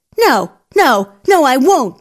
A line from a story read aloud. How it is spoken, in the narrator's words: she cried